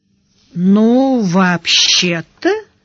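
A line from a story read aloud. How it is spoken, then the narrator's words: Drawn out. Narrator (Russian): протянула Яна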